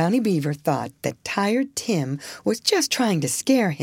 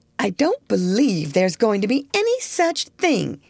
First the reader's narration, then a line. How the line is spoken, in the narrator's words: exclaimed